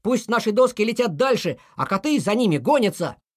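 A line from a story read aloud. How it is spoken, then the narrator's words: Shouting. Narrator (Russian): Пал Палыч закричал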